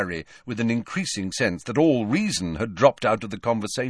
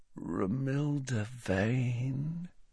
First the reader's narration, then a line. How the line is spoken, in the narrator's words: said Ron softly